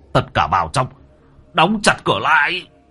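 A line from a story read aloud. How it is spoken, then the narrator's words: Commanding shout. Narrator (Vietnamese): Thầy Phong quát lên một tiếng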